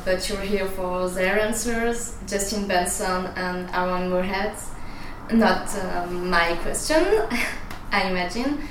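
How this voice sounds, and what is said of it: Swiss accent in English. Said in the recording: “sorry for my accent, I'm from Switzerland”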